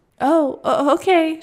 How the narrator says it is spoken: replied, laughing nervously

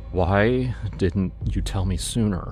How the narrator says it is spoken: he asked, his voice trembling

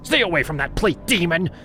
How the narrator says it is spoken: She barked at me

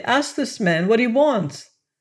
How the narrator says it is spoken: I cried helplessly

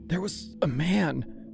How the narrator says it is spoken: she said, her voice strangled and thin

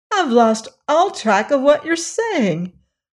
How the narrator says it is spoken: exclaimed Dorothy, interrupting the speech

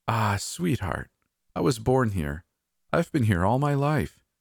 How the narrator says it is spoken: she sighed dramatically

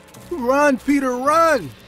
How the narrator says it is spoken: yelling

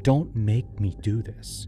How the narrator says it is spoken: He'd whisper

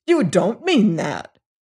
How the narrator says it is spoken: cried he

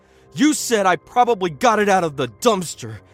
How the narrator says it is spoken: he screamed

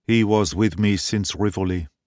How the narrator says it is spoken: he said sadly

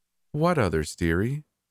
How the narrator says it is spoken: I sighed

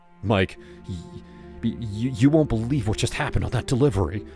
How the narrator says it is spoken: I stammered

